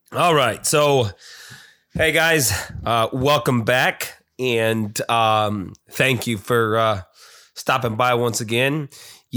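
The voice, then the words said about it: Congested voice from a cold. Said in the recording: “you could probably tell in my voice, somehow I came down with a cold again”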